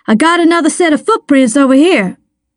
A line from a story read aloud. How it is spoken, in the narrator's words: shouted